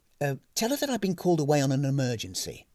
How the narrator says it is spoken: hastily improvised

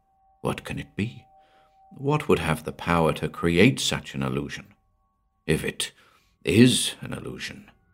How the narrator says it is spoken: muttered Jim

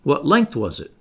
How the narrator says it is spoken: asked the Canadian

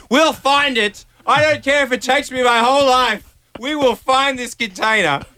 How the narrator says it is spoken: I was shouting at her, like on my knees shouting at her

